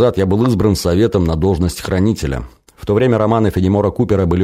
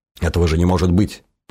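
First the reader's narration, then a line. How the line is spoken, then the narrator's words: Muttered. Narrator (Russian): пробормотал Женя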